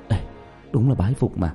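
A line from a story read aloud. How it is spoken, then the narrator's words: Breathless whisper. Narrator (Vietnamese): Lý Vĩ thì thào phun ra hai chữ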